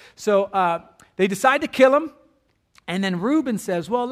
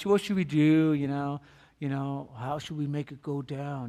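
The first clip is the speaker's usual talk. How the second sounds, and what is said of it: Poor mobster impression. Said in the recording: “that wasn't a good mob family impersonation”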